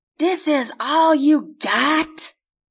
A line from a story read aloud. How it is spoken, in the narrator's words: yells in rage